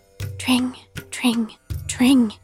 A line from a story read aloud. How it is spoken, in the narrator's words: he whispered, his soft voice still sounding loud and clear in my ears